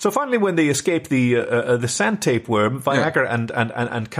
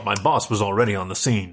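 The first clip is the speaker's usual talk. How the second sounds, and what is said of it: Weak put-on American accent. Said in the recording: “I don't do a very good American accent, do I? ... Sometimes it's better than others.”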